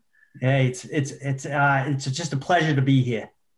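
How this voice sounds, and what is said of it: Boston accent. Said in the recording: “Give us something in a good Boston accent ... the greatness of the Boston accent”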